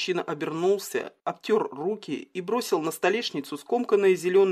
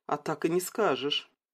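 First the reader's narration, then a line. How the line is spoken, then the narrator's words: Soft. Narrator (Russian): мягко заметила Стелла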